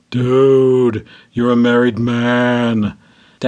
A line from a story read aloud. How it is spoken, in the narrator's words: Dennis moaned in my ear